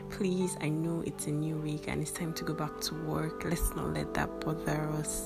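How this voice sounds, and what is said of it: Sore, rough throat voice. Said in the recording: “sorry about my voice. Um, I have like sore throats, or and I don't feel too well.”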